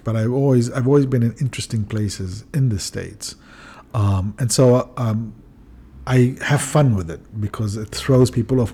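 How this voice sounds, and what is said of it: Noticeable foreign accent. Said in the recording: “a black guy with a funny accent”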